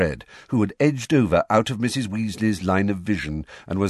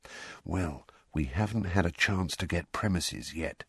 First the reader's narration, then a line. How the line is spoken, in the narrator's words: said Fred, dropping his voice even lower